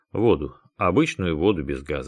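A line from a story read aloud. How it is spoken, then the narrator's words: Plain. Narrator (Russian): ответил Дронго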